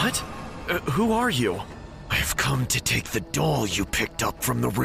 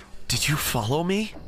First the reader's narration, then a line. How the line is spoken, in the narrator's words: I said in a confused voice